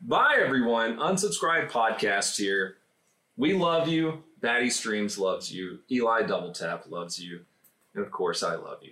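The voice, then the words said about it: Sexy YouTuber voice. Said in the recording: “Do your sexy YouTuber voice”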